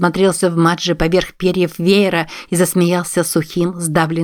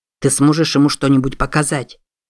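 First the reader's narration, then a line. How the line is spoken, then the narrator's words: Quiet question. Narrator (Russian): тихо спросил Чарльз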